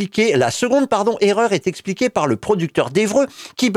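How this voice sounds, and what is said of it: Usual voice. Nothing is said of it.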